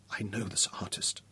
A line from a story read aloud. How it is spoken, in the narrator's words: she said softly